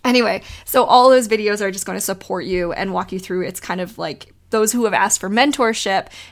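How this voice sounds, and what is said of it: Voice fading from a cold. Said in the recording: “losing my voice ... I have a cold.”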